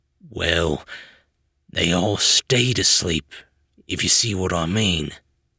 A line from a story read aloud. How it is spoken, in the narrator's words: Tangle said gravely